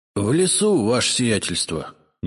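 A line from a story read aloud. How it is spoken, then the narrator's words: Miserable voice. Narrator (Russian): несчастным голосом ответил Игнат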